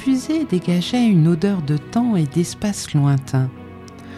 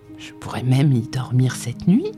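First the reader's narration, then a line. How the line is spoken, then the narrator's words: Excited murmur. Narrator (French): murmura-t-il excité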